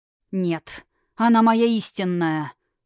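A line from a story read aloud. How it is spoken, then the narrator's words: Objecting through gritted teeth. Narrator (Russian): сквозь зубы возразил Тхирайм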